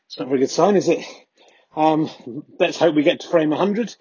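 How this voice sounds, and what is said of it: Slightly out of breath. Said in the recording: “bit out of breath”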